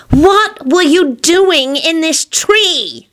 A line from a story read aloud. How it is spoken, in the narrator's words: She shrieked when she couldn't stand it any longer